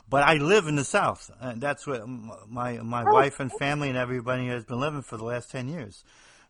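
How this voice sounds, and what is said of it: New Jersey accent. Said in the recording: “you could probably tell I'm somebody from the Northeast, New Jersey, actually. You probably hear it in my accent. I think I still have it.”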